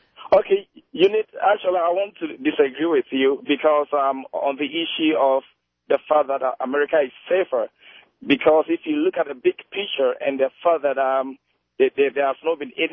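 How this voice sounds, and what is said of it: Speaks with a noticeable accent. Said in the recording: “as you can hear from my accent, I might not be able to say it”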